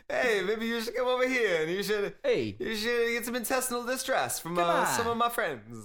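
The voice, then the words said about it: Bad put-on Italian accent. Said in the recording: “a Mario accent, but broken ... Like a really bad Italian accent.”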